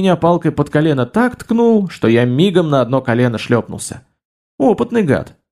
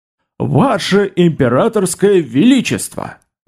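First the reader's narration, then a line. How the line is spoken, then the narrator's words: Booming, loud. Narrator (Russian): Зычно так, громко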